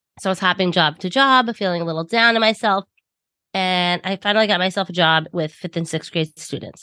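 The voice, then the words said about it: Thick Long Island New York accent. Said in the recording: “I'm from New York, if you cannot tell by my thick Long Island accent”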